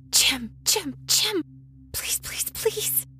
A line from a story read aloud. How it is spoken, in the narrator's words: I hissed